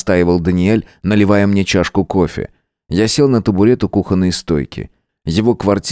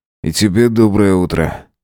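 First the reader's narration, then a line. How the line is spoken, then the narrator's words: Tired smirking reply. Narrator (Russian): ответил я, устало ухмыляясь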